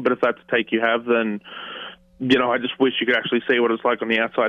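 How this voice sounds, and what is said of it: Emotional, choked-up voice. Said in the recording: “Sorry, I'm getting emotional now.”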